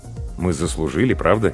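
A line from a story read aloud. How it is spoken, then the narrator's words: Quiet. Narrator (Russian): тихо сказал Павел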